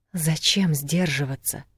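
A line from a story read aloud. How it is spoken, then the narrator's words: Drunken mumble. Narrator (Russian): пьяно пробормотала волчица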